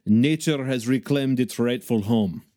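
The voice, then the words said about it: Put-on accent imitating Yuri. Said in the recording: “I had to do the accent, guys. I hope you enjoyed that. ... I'm working on the Yuri character right now.”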